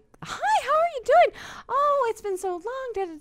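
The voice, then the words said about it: High-pitched, overly friendly greeting voice. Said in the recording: “your voice go up like three ... we're both talking that high”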